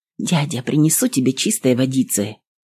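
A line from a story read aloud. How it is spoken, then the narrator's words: Whispered. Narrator (Russian): шепнула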